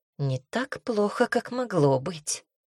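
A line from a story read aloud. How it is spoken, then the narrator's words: Displeased mutter. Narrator (Russian): буркнул недовольно Шелдон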